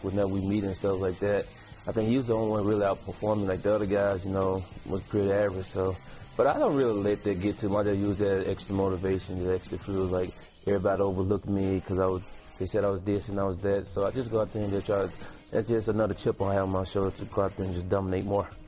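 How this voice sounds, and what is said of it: Thick Southern US accent. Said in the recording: “Have a nice, thick Southern accent.”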